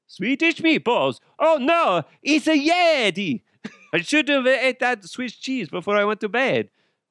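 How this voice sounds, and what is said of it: Attempted Swiss accent. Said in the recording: “I don't know if that's a Swiss accent or not”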